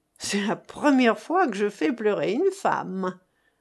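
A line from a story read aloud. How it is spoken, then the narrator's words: Sneered. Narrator (French): ricana Arrigonde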